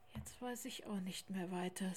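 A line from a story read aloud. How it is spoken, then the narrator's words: Very quiet speech. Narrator (German): sagte Lars, aber so leise, dass der kleine Tiger es nicht hören konnte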